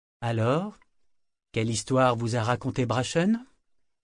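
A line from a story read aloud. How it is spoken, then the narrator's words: Woman asking, forcing calm. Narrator (French): demanda-t-elle d'un ton aussi calme que possible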